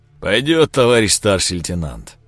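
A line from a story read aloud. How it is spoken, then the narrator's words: Deep bass voice. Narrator (Russian): пробасил Семенович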